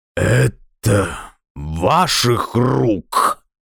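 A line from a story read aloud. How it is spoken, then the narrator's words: Choked rasp. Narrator (Russian): удушливо прохрипел он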